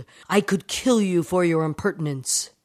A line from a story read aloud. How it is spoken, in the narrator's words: His very honor attacked, the samurai flew into a rage, yelled